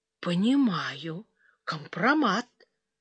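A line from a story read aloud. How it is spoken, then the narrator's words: Quiet. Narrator (Russian): тихо вымолвила Суглобова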